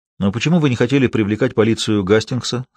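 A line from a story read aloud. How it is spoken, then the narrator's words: Plain. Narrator (Russian): спросил его Раттлидж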